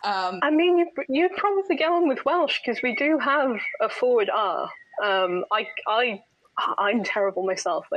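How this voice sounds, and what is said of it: Neutral middle-class British accent. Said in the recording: “I don't have the sort of standard Welsh accent. ... I've just somehow come out this kind of neutral, middle-class British-sounding person.”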